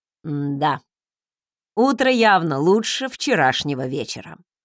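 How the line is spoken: Snorted. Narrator (Russian): хмыкнул он

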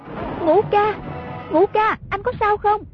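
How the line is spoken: Calling out repeatedly. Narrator (Vietnamese): Nàng miệng cứ kêu lên

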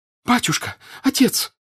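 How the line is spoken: Shouting. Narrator (Russian): закричала она

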